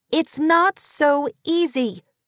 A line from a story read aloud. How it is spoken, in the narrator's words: she shouted